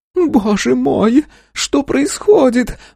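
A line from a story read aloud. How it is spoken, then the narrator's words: Lady shrieking. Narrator (Russian): взвизгнула дама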